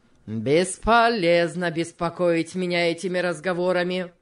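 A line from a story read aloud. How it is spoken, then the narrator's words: Rough retort. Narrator (Russian): грубо возразил тот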